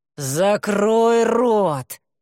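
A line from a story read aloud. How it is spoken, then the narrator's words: Through gritted teeth. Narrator (Russian): сквозь зубы повторил демон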